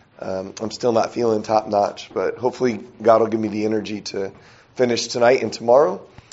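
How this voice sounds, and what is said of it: Weak, strained voice from illness. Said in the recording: “my voice is telling me that it's probably a good thing that I did that ... even if my voice is weak”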